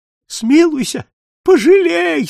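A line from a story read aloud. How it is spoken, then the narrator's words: Old man moaning. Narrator (Russian): стонал старик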